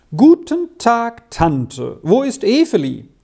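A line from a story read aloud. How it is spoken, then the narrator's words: Called out while entering. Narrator (German): rief im Hereintreten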